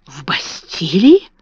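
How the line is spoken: Admiring whisper. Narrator (Russian): прошептала Эрмингарда с восхищением

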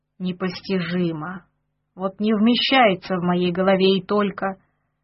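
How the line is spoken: Hoarse wheeze, thin man. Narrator (Russian): хрипел с ящиков худой

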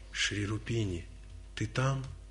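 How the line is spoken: Soft, gentle. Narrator (Russian): Прамбакта тихо, нежно, чтоб не испугать никого, произнес

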